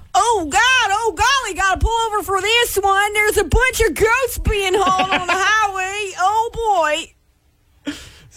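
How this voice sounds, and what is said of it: Gawking rubbernecker character voice. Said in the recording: “my impression of people... slow down to look at a thing or an accident, you've got to say it in that voice”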